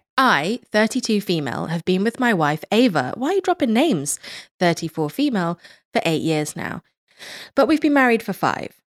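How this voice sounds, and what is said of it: Speaks with a noticeable accent. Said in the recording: “your beautiful accent”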